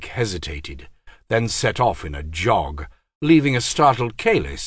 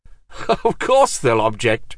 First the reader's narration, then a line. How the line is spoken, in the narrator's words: said Kalis with a laugh